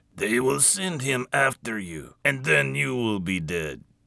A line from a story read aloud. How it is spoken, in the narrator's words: he said in his thick Russian accent